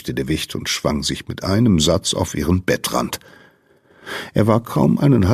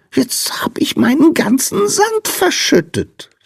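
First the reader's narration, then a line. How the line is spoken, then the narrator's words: Wailing. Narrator (German): jammerte der Sandmann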